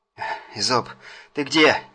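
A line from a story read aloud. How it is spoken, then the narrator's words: Breathless exhale. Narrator (Russian): выдохнул он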